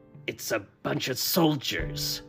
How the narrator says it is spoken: Balaam hissed at me

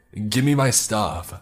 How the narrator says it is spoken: over and over at the top of his lungs

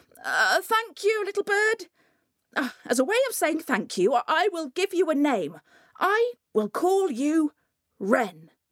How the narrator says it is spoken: he called out

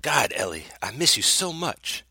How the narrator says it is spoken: he whispered

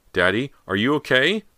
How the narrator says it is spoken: she shouted up the stairs

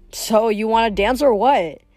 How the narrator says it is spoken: He laughed

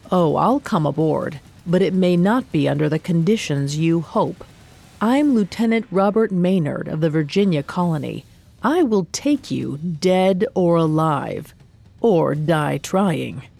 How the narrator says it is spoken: He called out a reply

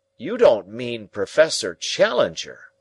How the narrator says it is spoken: I cried

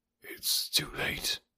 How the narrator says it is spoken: he whispered

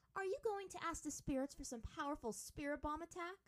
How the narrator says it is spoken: Azula asked eagerly

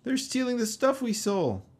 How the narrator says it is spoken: Sid cried

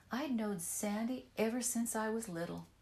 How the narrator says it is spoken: said

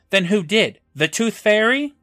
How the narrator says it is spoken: snaps back

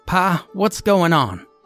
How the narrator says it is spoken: she called out

